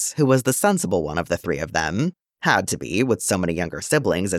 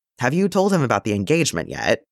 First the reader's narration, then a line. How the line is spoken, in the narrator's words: Bail asked